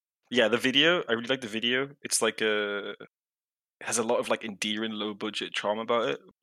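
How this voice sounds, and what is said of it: Regional British accent. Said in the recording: “I'm from a very specific part of Britain where I speak like I do... my accent was way stronger when I'm not talking to you guys”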